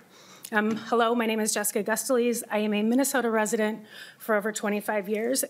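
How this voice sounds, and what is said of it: Slightly shaky, nervous voice. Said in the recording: “apologize for my voice being a little shaky. I'm kind of uncomfortable talking about this in public”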